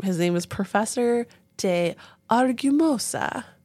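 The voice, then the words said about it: Mock Italian-style accent. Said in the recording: “I don't know why I said it with that accent because I'm in the Olive Garden mood.”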